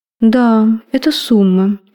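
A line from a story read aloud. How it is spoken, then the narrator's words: Lazy drawl. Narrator (Russian): лениво боском протянул профессор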